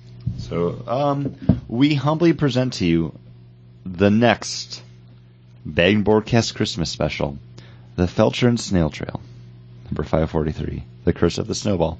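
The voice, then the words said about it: Hoarse, strained voice. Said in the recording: “my throat's still sore ... my voice is going to cut out a lot during this ... I lost my voice for like 3 days”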